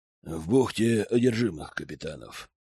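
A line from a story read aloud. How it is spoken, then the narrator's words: Low muffled voice. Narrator (Russian): глухо проговорил Разор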